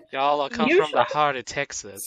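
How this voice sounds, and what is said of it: Put-on Texan accent. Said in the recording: “Why'd you suddenly turn Texan for a second? ... He just continues to use that accent ... Sounds like he's from Texas.”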